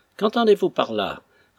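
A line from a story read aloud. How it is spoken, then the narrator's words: Brusque reply. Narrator (French): répondit Monsieur Pinks d'un ton brusque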